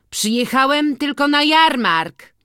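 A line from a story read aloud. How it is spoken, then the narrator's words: Cheerful call, organist's boy. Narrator (Polish): zawołał wesoło organiściuch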